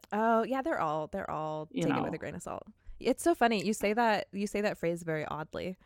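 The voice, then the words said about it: Valley Girl accent. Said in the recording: “this Valley Girl accent”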